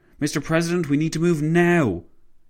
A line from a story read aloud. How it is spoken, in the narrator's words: his driver exclaimed